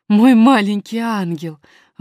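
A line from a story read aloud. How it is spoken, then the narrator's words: Nanny exclaiming. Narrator (Russian): воскликнула няня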